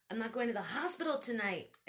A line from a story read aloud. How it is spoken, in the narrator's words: I shouted